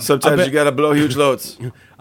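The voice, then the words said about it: Imitates another person's voice. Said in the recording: “That's my Shaq impression. ... It's spot on.”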